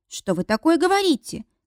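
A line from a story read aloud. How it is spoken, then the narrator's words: Exclaiming young woman. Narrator (Russian): воскликнула девушка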